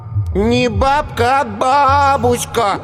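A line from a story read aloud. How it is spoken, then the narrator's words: Lecturing drawl. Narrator (Russian): назидательно протянул Коленька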